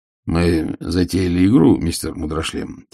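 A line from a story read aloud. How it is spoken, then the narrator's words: Quiet. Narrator (Russian): тихо сказал Ваймс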